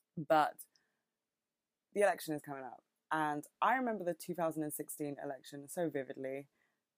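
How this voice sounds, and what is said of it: British accent. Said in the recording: “I have a very British accent, I think.”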